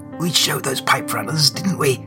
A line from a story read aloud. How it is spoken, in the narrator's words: she croaks feebly